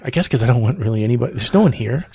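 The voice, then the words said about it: Whispering. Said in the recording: “I'm whispering. ... I don't know why I'm whispering.”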